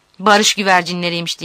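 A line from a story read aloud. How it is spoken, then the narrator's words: Shouting. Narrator (Turkish): diye bağırıyor Tanso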